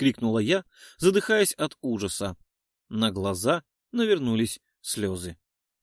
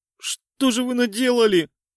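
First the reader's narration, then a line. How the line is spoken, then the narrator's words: Sobbing. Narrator (Russian): всхлипнула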